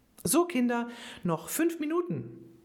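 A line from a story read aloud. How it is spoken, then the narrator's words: Cheerful woman calling out. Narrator (German): rief sie bestens gelaunt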